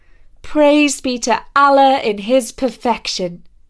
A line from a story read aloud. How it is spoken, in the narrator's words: I was greatly thrilled and called out